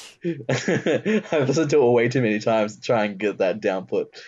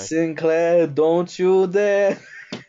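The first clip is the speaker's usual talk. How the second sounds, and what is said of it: Spot-on imitated character accent. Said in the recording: “That's a pretty fucking on point accent”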